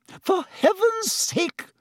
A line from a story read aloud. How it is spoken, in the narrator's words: said Madame Pomfrey hysterically